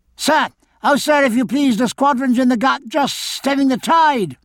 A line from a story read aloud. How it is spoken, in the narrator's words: a small fat boy called out